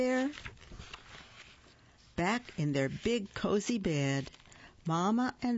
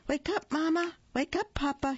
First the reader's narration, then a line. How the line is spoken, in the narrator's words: he cried